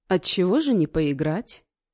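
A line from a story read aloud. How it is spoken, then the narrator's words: Calm stranger. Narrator (Russian): спокойно заявил неизвестный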